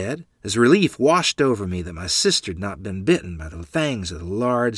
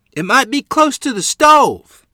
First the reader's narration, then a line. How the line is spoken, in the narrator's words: Mother yelled